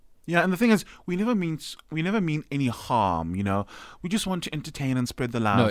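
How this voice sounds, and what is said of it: Usual voice. Nothing is said of it.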